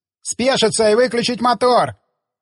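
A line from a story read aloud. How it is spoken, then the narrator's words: Distant shout. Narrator (Russian): крикнули из дота на обочине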